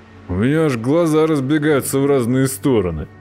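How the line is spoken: Deep bass voice. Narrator (Russian): прибасил Жертрест

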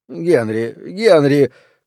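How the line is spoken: Resigned faltering babble. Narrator (Russian): как будто бы окончательно мирясь с участью жертвы, пролепетал он

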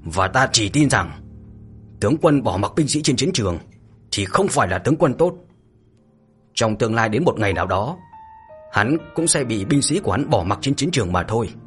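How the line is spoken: Icy, through gritted teeth. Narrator (Vietnamese): Mạnh Hổ giết một cô qua kẽ răng lạnh lùng như là băng giá

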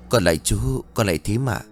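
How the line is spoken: Polite greeting. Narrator (Vietnamese): Mận ... chào

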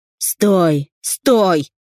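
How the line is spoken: Shouted. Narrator (Russian): закричал Захар

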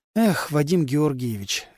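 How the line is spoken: Sighing. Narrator (Russian): Людмила вздохнула

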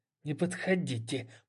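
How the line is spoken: Hiss. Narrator (Russian): прошипела она

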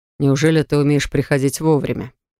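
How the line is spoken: Man's scoffing grunt. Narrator (Russian): Хмыкнул мужчина

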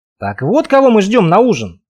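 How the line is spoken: Snort. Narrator (Russian): хмыкнул я

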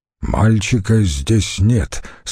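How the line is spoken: Plain. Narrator (Russian): сказал он

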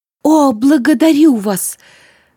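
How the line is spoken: Exclamation. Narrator (Russian): воскликнула Злата

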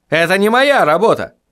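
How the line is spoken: Shouting. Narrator (Russian): закричал Вильям

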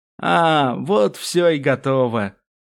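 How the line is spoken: Drawled. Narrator (Russian): протянул он

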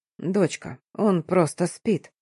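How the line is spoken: Quiet gentle explanation. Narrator (Russian): тихо пояснил папа

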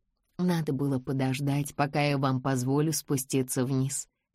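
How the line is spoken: Plain. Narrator (Russian): сказала она

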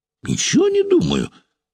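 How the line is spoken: Near shriek. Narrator (Russian): вновь почти взвизгнул Суслов

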